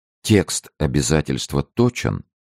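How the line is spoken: Calm question. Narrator (Russian): спокойно спросил Арамис

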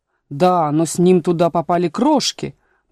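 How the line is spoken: Grumbling. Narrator (Russian): проворчал шляпочник

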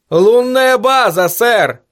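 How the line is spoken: Shouting. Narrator (Russian): крикнул связист

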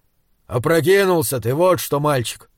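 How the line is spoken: Grumbling. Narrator (Russian): проворчал Изгримнур

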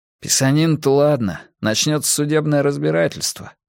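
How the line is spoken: Gloomy. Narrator (Russian): мрачно добавил Гарри

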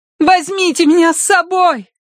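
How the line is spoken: Shouted after them. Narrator (Russian): крикнула Киврин им вслед

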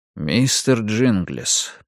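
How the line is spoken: Quiet call. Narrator (Russian): позвал я тихим голосом

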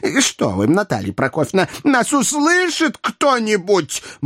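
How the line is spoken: Pleading yell. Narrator (Russian): моляще орал Боров

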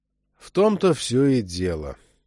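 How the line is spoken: Tired. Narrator (Russian): устало сказал Чак

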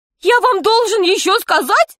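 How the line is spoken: Fat man shouting. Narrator (Russian): кричал толстяк

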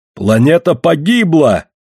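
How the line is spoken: Horrified scream. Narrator (Russian): с ужасом закричал Оан

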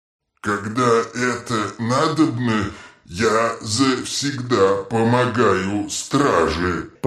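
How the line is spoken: Mumbling. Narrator (Russian): пробормотал он

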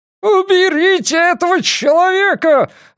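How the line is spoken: Yelling. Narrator (Russian): орал Нортон

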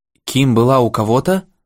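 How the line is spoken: Bewildered male question. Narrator (Russian): растерянно спросил Моррисон

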